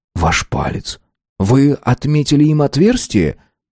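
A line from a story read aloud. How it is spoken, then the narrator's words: Calm but strained. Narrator (Russian): Смит говорил спокойно, но видно было, что это давалось ему с трудом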